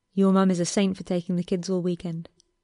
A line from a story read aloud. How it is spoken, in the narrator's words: Harry murmured